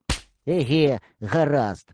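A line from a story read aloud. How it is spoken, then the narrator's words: Grumbled. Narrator (Ukrainian): буркнув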